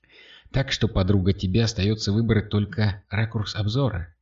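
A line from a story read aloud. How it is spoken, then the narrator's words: Quiet snort. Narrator (Russian): тихо фыркнула Катя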